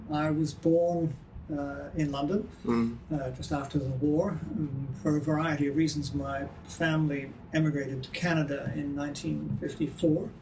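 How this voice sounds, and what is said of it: Mid-Atlantic composite accent. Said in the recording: “my accent is a kind of mid-Atlantic composite”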